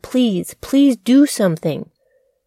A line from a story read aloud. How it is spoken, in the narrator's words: shouting